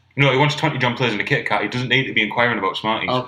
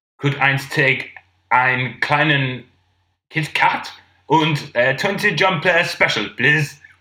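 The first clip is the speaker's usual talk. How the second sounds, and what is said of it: Poor fake German accent, like Mr. Bean. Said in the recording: “You sounded like Mr. Bean, then ... I can't do accents.”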